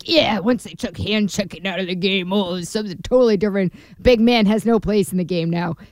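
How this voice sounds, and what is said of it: Old man voice. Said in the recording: “That's my old man voice. ... That was a pretty good old man voice.”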